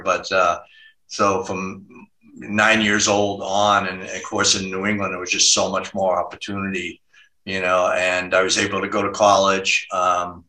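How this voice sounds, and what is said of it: Slight Massachusetts accent. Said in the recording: “we went to Worcester, Massachusetts, which is about 40 miles, you know, west of Boston. And so you probably hear a little bit of an accent here”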